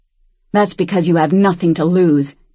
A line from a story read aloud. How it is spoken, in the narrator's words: Daniel spat